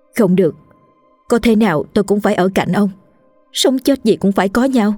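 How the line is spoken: Flustered, hurried woman. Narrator (Vietnamese): Bà Đồ thấy lời nói của chồng nghiêm trọng nên bà rối rít

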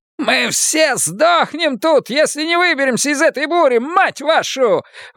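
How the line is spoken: Yelling. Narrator (Russian): вопит Селен

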